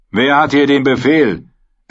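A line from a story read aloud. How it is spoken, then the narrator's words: Loud question. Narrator (German): erkundigte sich James laut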